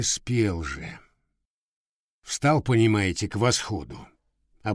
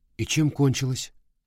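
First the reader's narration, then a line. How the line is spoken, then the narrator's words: Plain. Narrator (Russian): спросил я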